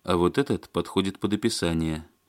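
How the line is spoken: Thoughtful. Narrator (Russian): задумчиво сказал Барышев

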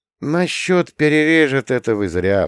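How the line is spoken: Sigh. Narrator (Russian): вздохнул я

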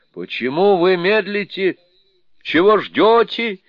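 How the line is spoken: Shouted. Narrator (Russian): закричал Джу

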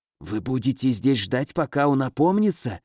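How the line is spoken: Trembling whisper. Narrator (Russian): шепнул, дрожа

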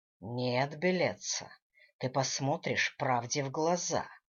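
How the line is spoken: Hissed. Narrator (Russian): прошипел Гвидо

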